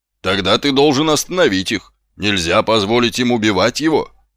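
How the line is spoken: Exclamation. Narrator (Russian): воскликнула госпожа Овниц

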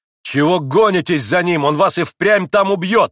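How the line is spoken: Angry shout. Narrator (Russian): гневно крикнул на отца Иван Федорович

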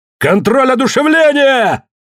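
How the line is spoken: Triumphant shout. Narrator (Russian): торжествующе выкрикнул Коллинз

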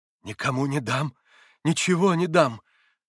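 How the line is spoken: Hard-hearted exclamation. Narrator (Russian): жестокосердно воскликнул Снегирев

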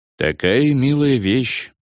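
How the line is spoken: Sad. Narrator (Russian): грустно сказал Кронер

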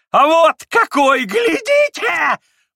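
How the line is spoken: Sudden shriek. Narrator (Russian): взвизгнул вдруг

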